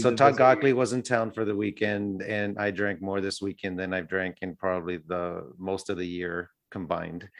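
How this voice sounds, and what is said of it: Slightly hoarse voice. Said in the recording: “my voice that's a little hoarse this morning ... my voice is a little hoarse”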